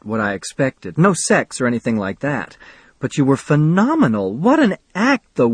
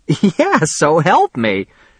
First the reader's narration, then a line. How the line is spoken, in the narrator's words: she laughed